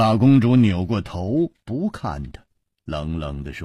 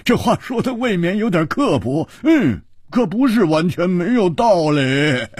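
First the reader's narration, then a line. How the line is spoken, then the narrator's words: Laughing loudly. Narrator (Chinese): 胡铁花大笑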